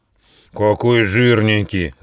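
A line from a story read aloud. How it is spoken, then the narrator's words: Large beast growling. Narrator (Russian): зарычал самый крупный из них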